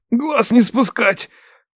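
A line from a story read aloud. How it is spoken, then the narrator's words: Hoarse rasp. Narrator (Russian): прохрипел Андрюха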